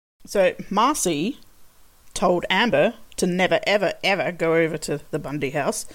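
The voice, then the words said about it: Quick impression of Marcy. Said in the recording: “great impersonation... a really quick Marcy impression”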